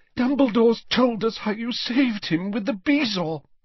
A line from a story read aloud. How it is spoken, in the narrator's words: she sobbed